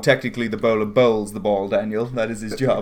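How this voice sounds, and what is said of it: Strong upper-class British accent. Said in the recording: “You just got like super British. ... You've lost your accent ... you just got like high end.”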